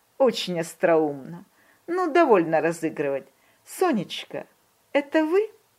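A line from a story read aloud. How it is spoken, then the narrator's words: Laughing, sniffing. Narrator (Russian): засмеялся, посопел и говорит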